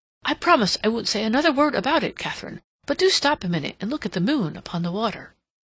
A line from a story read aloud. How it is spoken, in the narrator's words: Rodney exclaimed